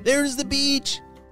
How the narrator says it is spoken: shouted Callum

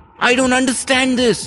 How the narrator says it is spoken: shouted

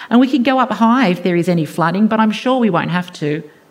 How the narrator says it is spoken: says sarcastically

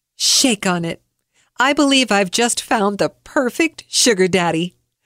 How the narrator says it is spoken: laughed out loud, said

